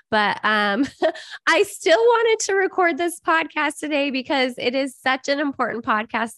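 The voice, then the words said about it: Scratchy, deep voice from a cold. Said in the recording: “I have a little bit of a cold, and so I'm sorry my voice is a little bit scratchy. My teen says I sound like a man”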